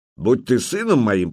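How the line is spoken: Grumbling. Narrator (Russian): проворчал Стемид

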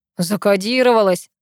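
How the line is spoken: Guffawing. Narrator (Russian): захохотал

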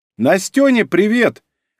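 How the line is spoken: Calling after someone. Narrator (Russian): крикнула ему вслед Ольга

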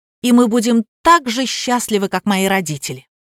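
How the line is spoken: Emotional exclamation. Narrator (Russian): Миша, расчувствовавшись, воскликнул

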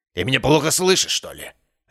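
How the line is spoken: Sharp, curt. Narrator (Russian): резко отрезал он

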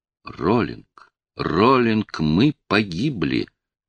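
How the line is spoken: Quiet hopeless voice. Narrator (Russian): Это было сказано тихим, безнадежным голосом

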